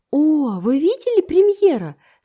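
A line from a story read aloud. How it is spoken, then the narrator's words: Quick exclamation. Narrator (Russian): сразу воскликнула Энн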